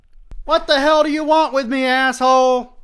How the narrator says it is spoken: screams

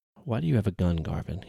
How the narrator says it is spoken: He said as calmly as he could manage

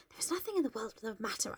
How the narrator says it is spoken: I whispered

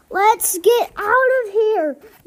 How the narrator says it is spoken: yelled Duck

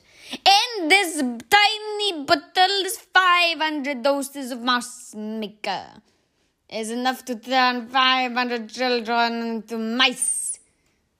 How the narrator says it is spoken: shouted

